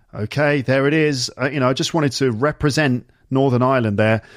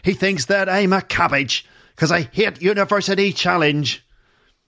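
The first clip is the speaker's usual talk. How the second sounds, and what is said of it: Poor put-on Northern Irish accent. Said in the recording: “my poor attempt at doing an Irish, Northern Irish accent”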